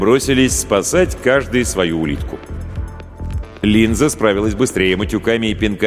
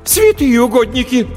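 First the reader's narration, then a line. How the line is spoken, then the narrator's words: Startled cry. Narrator (Russian): вскрикнула переводчица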